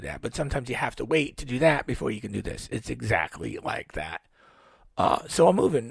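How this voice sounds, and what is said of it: Rough, hoarse voice. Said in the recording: “I'm a little rough here, huh? ... My voice is a little rough.”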